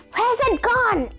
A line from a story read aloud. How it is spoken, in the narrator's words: shouted